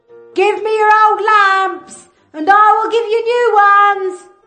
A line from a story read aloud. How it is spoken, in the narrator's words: shouted